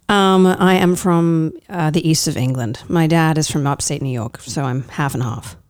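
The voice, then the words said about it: Slight English accent. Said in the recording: “I hear a little bit of an accent.”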